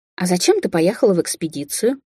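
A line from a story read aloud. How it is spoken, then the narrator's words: Plain. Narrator (Russian): спросила Алисия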